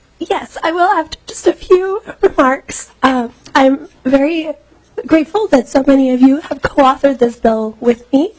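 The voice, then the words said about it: Weak, mostly lost voice. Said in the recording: “Totally lost my voice. ... having lost your voice”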